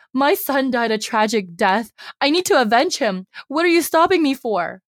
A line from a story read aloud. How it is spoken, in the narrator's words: Madame Mo screams